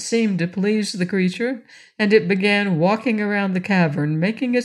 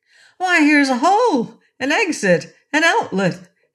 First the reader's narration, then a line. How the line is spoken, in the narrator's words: exclaimed the orc from above